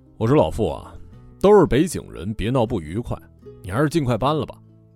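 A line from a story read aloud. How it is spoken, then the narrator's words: Cold, bad-tempered. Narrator (Chinese): 牛老板脾气没那么好，冷冷的说了一句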